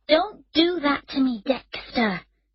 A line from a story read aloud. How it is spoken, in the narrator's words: she said angrily